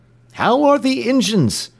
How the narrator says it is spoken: cried he to the engineer

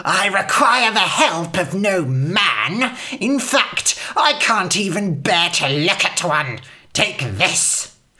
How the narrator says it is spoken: The old woman hissed

